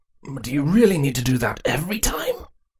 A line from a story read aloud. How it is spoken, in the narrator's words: Cardus asked in a wheezing voice, the air having been knocked out of him